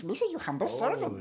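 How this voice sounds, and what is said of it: Cartoonish Jar Jar Binks character voice. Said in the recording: “I do a good Jar Jar Binks.”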